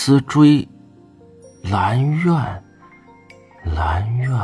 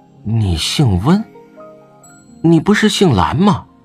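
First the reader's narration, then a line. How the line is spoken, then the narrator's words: Trembling voice. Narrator (Chinese): 魏无羡颤声道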